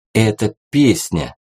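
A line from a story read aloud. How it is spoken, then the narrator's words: Quiet. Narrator (Russian): тихонько проговорил китаец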